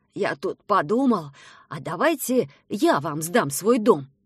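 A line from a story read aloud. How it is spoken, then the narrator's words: Plain. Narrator (Russian): сказал дедушка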